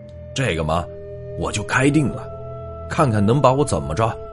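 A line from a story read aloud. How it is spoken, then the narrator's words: Flustered loud shout. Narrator (Chinese): 红着脸大喊了一声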